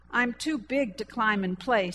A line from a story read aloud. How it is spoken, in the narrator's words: said the boy